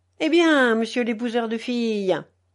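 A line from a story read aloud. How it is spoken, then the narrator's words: Mocking, contemptuous. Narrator (French): dit le marquis d'un ton moqueur et méprisant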